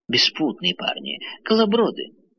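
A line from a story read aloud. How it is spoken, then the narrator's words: Old woman exclaiming. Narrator (Russian): воскликнула старуха Ван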